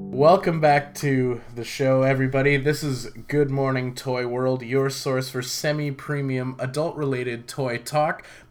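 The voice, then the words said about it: Scratchy, hoarse voice. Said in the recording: “My voice is super scratchy”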